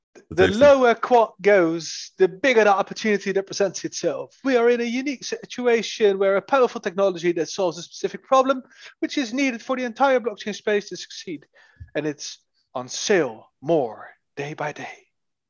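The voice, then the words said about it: Attempted UK English accent. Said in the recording (Dutch): “accent een beetje aan. Van de UK, ik probeer dat dan.”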